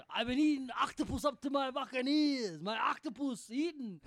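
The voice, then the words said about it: Failed Cuban accent, Schwarzenegger-like. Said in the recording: “Was that Arnold Schwarzenegger impersonating Al Pacino? ... that was me trying to do a Cuban accent. I can't do a Cuban accent. ... that sounded like Arnold Schwarzenegger doing Scarface.”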